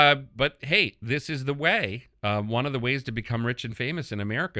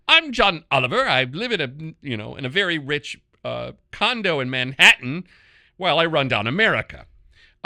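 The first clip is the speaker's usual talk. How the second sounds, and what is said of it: Imitation of John Oliver's accent. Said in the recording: “I'm the Middle Eastern version of John Oliver ... does that accent set me off”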